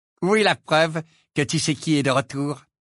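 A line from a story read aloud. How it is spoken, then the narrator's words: Boy, fairly aggressive question. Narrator (French): demanda d'un ton assez agressif le garçon blond qui jouait dans l'équipe de Poufsouffle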